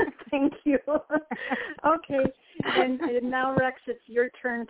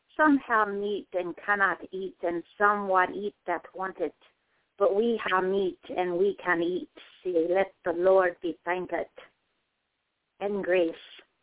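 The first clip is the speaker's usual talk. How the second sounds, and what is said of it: Put-on Scottish accent, rolled R's. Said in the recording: “I don't want to offend any non-Scottish people, but I'll try. I'll try rolling my R's ... great accent”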